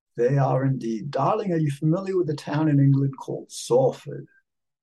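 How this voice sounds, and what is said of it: Put-on British English accent. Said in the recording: “I adopted a British accent and English accent also.”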